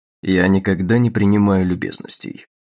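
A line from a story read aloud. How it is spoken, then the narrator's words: Cold reply. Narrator (Russian): ответил он холодным тоном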